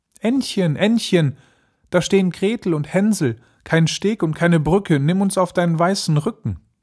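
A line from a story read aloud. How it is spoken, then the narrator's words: Calling out. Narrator (German): rief sie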